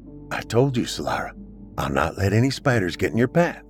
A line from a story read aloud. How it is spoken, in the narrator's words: Mallory quietly spoke